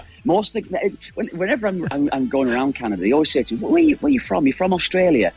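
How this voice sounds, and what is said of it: Hybrid accent, mistaken for Australian. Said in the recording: “they all think I'm a Brit ... I've probably got a bit of a hybrid accent. So they might, that's why people seem to think I'm from Australia.”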